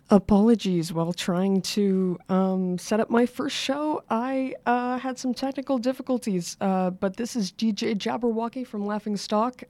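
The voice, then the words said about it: Partly lost, strained voice. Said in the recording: “I've lost my voice a little”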